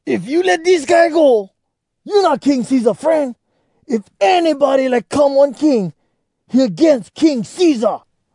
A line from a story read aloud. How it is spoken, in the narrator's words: the Jews make big noise and yell